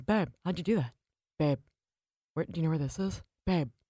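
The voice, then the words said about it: Imitates another person's voice. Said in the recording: “It's scary how accurate that impression ... is.”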